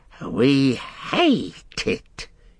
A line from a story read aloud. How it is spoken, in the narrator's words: he hissed